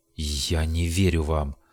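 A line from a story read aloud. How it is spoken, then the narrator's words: Forced out with difficulty. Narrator (Russian): с трудом выдавил я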